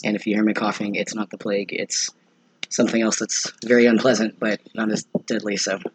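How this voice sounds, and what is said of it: Weird, rough sick voice. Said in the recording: “why my voice sounds weird ... It's probably bronchitis or something ... my voice is all messed up ... inflamed bronchial tubes”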